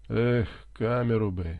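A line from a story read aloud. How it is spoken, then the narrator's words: Groaning. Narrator (Russian): простонал Гарри Кейн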